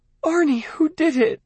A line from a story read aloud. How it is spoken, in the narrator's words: she asked, her voice breaking with grief for him